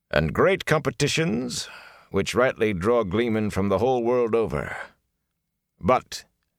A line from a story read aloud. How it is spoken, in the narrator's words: he added dryly